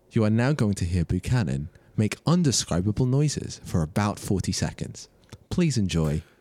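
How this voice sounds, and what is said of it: Mock radio announcer voice. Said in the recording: “doing a radio voice.”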